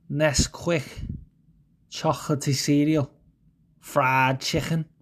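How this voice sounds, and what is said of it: Put-on Scouse accent. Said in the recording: “I'm going to read some fucking words in Scouse”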